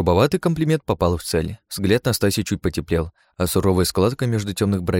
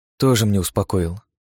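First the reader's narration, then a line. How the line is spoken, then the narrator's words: Sighing. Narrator (Russian): вздохнула Настасья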